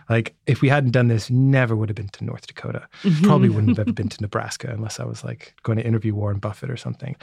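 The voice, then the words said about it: British accent, slightly American-sounding. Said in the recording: “you are not American ... Although you sound a little bit American ... So I'm British, but I've lived on and off in the U.S. for 10 years of my life, which is why my accent is like it is”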